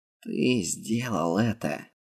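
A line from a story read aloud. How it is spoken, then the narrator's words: Breathless exhale. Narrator (Russian): Только и выдохнул он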